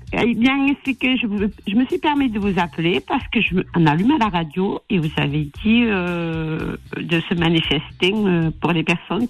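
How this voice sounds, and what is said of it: Slight Toulouse regional French accent. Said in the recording (French): “avec le petit accent de Toulouse qui fait plaisir”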